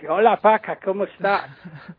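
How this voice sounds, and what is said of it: Funny imitated French accent. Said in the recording (Spanish): “con ese acento tan gracioso que tiene ... un especialista francés”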